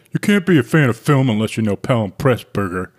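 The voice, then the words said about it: Imitates another person's voice. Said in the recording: “Is that your impression of Lance? ... That's my impression of Lance.”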